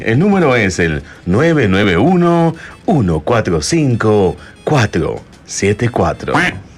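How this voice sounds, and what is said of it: Deep radio announcer voice. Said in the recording (Spanish): “Dilo con tu voz de locutor ... Ella quiere mi voz así”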